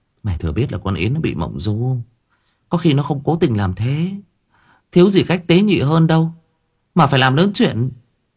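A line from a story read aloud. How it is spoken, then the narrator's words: Sighing. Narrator (Vietnamese): Thương thở dài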